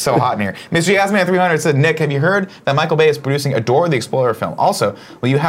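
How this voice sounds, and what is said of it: Usual voice. Nothing is said of it.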